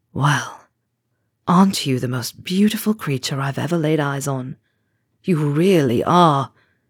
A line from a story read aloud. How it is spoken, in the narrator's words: Charlie whispered, soothingly